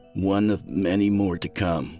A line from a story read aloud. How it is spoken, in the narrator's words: said